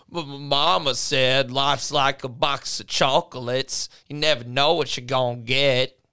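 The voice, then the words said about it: Forrest Gump character impression. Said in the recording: “do my best Forrest Gump impression.”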